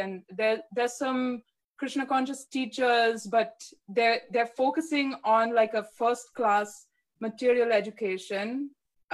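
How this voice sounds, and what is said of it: Put-on Indian accent. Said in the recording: “I feel silly for speaking in an Indian accent. just for your humor.”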